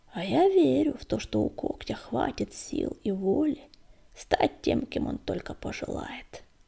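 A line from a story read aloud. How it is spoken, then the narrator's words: Creaky voice. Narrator (Russian): наконец проскрипела она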